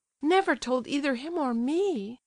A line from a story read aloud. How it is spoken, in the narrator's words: cried Aglaya